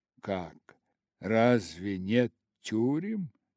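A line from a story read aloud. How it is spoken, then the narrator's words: Mocking question. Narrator (Russian): спросил дух, в последний раз насмешливо повторяя собственные слова Скруджа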